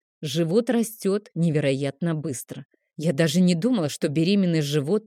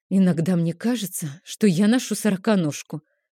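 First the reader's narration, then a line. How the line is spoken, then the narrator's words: Sighing. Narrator (Russian): вздохнула я, ощутив множество ударов сразу в нескольких частях живота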